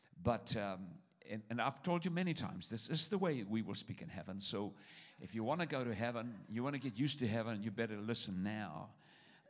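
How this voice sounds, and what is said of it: Fast speech with a noticeable accent. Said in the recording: “I'm going to talk real fast ... I do have an accent.”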